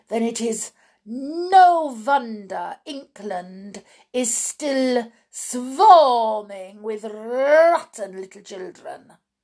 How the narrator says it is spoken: thundered the Grand High Witch

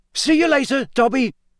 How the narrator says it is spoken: Harry shouted

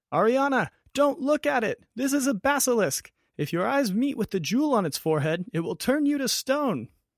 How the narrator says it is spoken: Gelencio screams

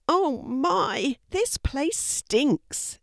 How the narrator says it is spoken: exclaimed Louis

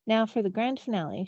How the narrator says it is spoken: she said

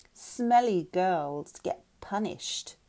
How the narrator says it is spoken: Shelby sneered

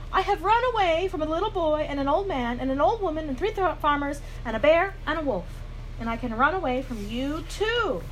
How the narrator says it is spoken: Then he called out

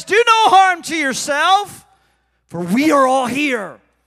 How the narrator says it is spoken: Paul called out with a loud voice

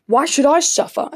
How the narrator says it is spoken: Achilles shouted

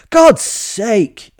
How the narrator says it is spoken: I shouted

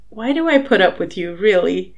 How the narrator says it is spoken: Harry giggled

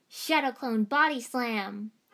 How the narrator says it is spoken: Naruto shouted

